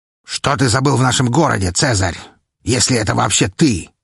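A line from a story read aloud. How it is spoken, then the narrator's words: Growled. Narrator (Russian): рыкнул Воргас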